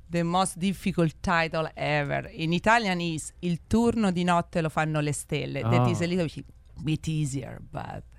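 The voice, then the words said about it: Italian-accented English. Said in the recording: “my Italian English ... I'm American with an Italian accent”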